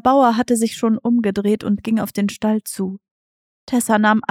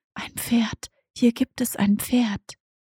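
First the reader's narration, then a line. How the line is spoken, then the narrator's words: Soft inner whisper. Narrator (German): begann eine leise Stimme zu wispern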